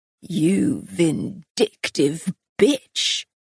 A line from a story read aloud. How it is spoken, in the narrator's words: he snarled